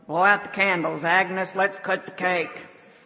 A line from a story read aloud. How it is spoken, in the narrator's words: Harry, the fat guy behind the counter, gruffly mumbled